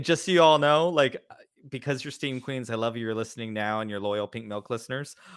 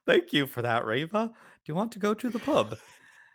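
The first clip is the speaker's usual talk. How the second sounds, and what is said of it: Put-on British accent. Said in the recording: “now I'm gonna try to do a British ... British accent”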